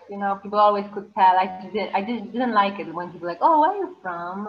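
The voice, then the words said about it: Non-American accent. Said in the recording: “my accent and I want to improve it actually, my accent, just the speed the dialect ... not being American”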